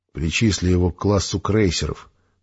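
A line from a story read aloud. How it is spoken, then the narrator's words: Plain. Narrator (Russian): сказал майор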